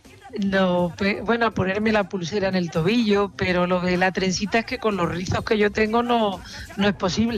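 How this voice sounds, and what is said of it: Speaks with a regional Spanish accent. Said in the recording (Spanish): “Gracias por tu acento siempre.”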